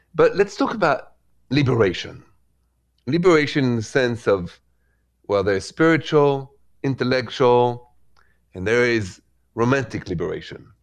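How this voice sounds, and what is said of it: French accent from Paris. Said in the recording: “The accent is from Paris a long time ago.”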